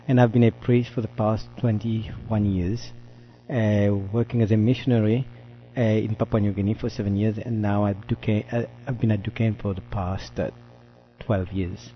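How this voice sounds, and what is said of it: French accent from Mauritius. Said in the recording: “I come from Mauritius. That's why my French accent.”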